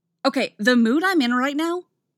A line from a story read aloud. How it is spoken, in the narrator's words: Artemis barks